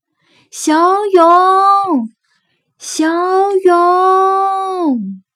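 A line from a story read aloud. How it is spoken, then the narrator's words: Loud calls, group of friends. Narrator (Chinese): 伙伴们 大声的喊着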